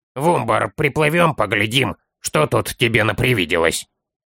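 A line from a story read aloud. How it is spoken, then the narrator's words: Grumbling. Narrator (Russian): ворчал Строри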